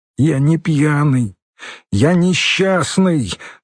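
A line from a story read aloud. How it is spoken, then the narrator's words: Strained anguished voice. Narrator (Russian): надрывным голосом сказал Юра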